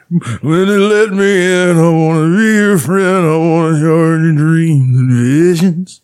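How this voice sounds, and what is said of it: Imitates another person's voice. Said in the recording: “I do a pretty good Bruce impression.”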